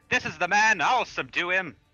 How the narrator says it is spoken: I'll shout out

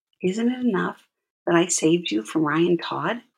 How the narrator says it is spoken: whispered

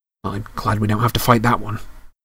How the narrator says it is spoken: Harry whispered

